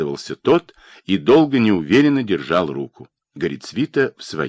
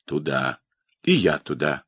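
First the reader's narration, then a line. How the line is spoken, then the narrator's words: Sighing. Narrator (Russian): вздохнул Педопригора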